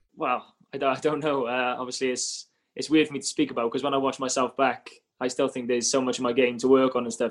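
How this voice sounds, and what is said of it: Strong Welsh Cardiff accent. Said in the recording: “my accent, I didn't realise, is as strong as it is ... Cardiff born, Cardiff bred ... Stick to Welsh, mate.”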